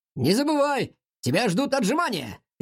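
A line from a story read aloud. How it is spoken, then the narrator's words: Shouted. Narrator (Russian): крикнул он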